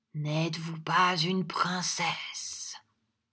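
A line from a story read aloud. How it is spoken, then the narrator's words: Mysterious, fairly loud. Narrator (French): il dit d'un ton de mystère, quoique assez haut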